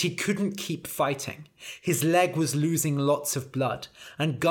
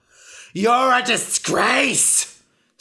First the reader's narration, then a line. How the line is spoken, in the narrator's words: screamed Ra